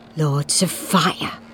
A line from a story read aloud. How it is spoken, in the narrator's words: muttered